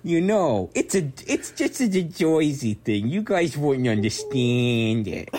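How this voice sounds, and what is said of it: Exaggerated New Jersey accent. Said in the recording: “talking in this Joyzy accent ... this is exactly how people in Jersey sound”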